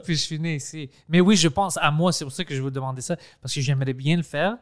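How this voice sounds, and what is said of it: French with a Greek accent. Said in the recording (French): “bizarre mon accent en français ... je parle français comme un grec ... c'est pas un accent euh, anglais, c'est un accent grec”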